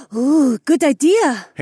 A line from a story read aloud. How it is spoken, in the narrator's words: Haewon gasped